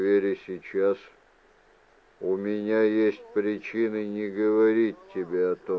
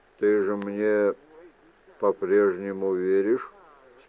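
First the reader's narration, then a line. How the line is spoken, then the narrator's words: Plain question. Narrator (Russian): спросил Мендер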